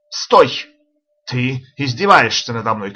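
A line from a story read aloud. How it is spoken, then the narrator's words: Shouted. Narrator (Russian): крикнул Джемс Баджу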